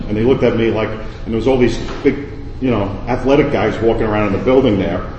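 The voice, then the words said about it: New York City accent. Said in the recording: “As you can tell by my accent, I'm not from around here ... I'm from down south, New York City”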